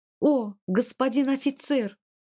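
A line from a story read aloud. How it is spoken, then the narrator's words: Girl's theatrical exclamation. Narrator (Russian): театрально воскликнула девушка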